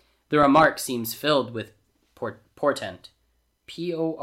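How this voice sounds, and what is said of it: Usual voice. Nothing is said of it.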